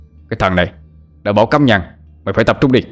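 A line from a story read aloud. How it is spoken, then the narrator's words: Sharp scolding shout. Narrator (Vietnamese): lòng lo sợ, lập tức bị Tam Bố quát lên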